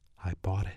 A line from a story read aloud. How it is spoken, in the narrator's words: Then she added quietly